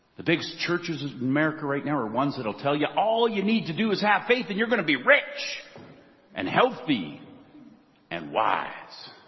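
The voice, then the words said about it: Bad put-on American accent. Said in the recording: “Sorry for the bad American accent.”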